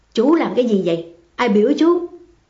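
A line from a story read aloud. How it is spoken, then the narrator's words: Irritable grumbling. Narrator (Vietnamese): Hương Quảng Thình gắt gọn gù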